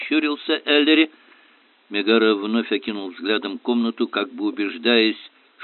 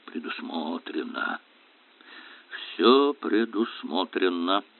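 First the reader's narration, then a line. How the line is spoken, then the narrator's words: Muttering. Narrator (Russian): пробормотал Мигара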